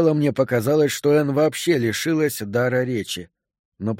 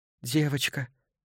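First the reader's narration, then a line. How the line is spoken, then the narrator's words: Mumbling. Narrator (Russian): пробормотала она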